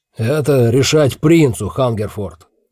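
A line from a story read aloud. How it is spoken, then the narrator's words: Barking. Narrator (Russian): рявкнул Кагга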